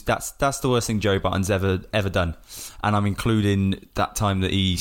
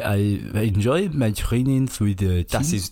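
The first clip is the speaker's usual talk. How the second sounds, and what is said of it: English spoken in fake French accent. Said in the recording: “When he tries to speak English in a French accent. ... But in French accent.”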